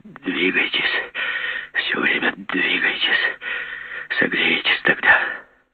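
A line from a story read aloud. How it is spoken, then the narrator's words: Whisper through swollen lips. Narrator (Russian): Левченко шептал нам вспухшими губами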